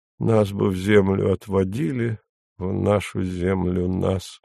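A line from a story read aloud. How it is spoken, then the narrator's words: Barely audible singing. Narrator (Russian): Еще он спел едва слышно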